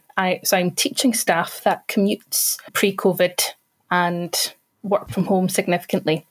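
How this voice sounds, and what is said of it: Scottish accent. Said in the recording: “As you might be able to tell from my accent, I am not a Lancaster native... I am actually based in Falkirk, central Scotland”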